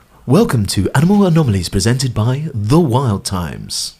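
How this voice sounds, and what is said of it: Radio DJ announcer voice. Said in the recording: “I've even got a radio DJ voice ... Honestly, how good was that?”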